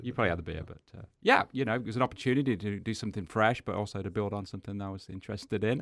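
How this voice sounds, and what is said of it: Noticeable non-local accent. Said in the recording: “my accent does stand out, obviously ... his accent shouldn't stand out”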